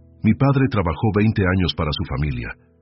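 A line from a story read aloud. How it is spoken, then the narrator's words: Firm voice, burning throat. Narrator (Spanish): dijo Amparo con la voz firme aunque le ardía la garganta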